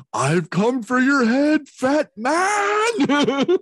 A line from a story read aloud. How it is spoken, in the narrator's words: he yells